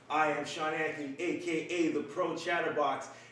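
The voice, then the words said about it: Radio announcer style voice. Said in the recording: “how is the fucking radio voice? Yeah. This man came in with a fucking radio voice, ready to go.”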